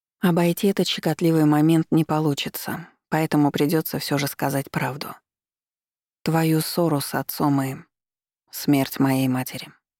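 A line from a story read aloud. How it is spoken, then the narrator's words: Calm. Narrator (Russian): спокойно закончил Маркус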